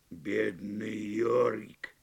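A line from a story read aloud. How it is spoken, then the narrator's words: Mutter. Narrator (Russian): Пробормотал он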